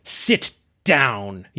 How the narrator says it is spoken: he spat

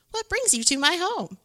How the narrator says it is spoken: Amu exclaimed

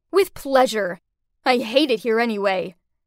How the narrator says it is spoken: Taylor snarled back

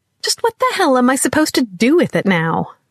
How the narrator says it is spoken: snapped

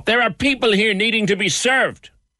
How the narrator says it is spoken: he roared

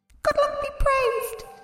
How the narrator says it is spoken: he exclaimed

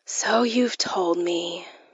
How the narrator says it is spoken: I said wearily

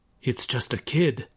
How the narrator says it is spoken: muttered Oshiro

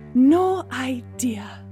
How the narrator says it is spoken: Gemma sighed

